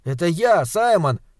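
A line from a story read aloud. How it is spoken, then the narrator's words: Boy shouting. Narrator (Russian): крикнул мальчик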